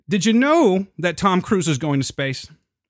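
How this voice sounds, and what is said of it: News radio announcer voice. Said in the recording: “I don't know why I'm talking with this radio voice, by the way, but it's the news”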